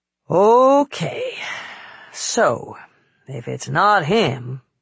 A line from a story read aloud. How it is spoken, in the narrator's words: Claire said with a sigh